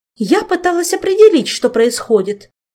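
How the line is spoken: Snapping retort. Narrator (Russian): огрызнулась матресса

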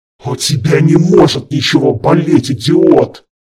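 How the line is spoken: Growling. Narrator (Russian): прорычал

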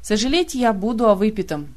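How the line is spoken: Snapping retort. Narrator (Russian): огрызнулся Кантгрэм

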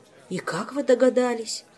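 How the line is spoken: Sighing. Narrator (Russian): вздохнул Мильди

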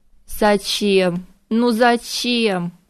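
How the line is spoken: Anguished groan. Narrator (Russian): простонал он

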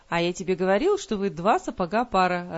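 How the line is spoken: Jester's cheerful continuation. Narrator (Russian): радостно продолжал шут

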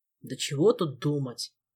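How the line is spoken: Grumbling. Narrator (Russian): проворчал Элмар

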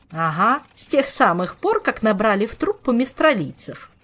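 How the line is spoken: Snapping retort. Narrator (Russian): огрызнулась дама с собачками

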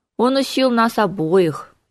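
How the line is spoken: Trembling voice. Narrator (Russian): дрогнувшим голосом произнес он

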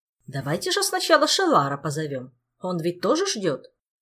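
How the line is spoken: Loud. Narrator (Russian): Морриган громко произнесла

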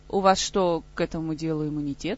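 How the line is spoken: Curt, very cold reply. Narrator (Russian): Король помолчал, затем кратко и очень холодно ответил

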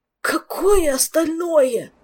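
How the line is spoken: Panicked hoarse wheeze. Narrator (Russian): В панике прохрипел

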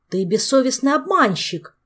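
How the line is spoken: Indignant shout. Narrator (Russian): возмущенно закричал второй

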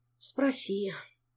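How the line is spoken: Sigh. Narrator (Russian): вздохнул Жак

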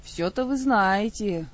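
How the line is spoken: Sigh. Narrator (Russian): вздохнула Ольга

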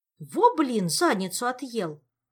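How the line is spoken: Indignant exclamation. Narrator (Russian): возмущенно воскликнула сверху объект

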